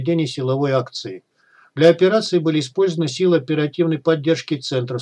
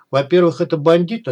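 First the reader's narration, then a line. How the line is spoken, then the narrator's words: Plain. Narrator (Russian): ответил ему Тимур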